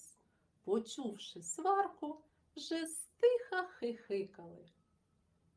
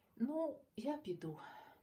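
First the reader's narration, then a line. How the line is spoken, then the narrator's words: Quiet. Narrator (Ukrainian): тихо сказав Марусик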